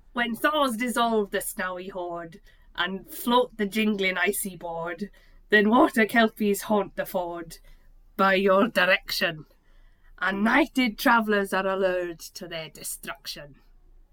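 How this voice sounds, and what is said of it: Put-on Scouse Liverpool accent. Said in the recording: “I can't do Scottish ... I've been doing Liverpool for too long. Can I do it in a Scouse accent?”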